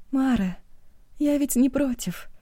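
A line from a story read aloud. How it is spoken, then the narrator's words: Sad, smiling tone. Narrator (Russian): печально улыбнулась Эва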